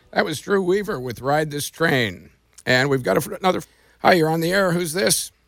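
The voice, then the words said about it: Gruff, raspy voice. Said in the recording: “I thought maybe Slim Pickens took your place today. You're sounding kind of sexy, that gruff voice.”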